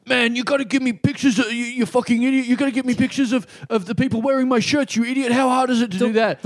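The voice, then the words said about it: Imitates another person's voice. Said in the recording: “The worst impression anyone has ever done anyone else. ... You're trying to do a Ronnie voice ... you were really straddling the line.”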